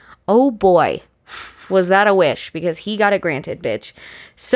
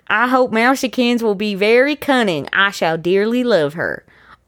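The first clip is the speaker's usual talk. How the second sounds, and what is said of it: Put-on accent reading a letter. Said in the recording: “I gotta pick an accent.”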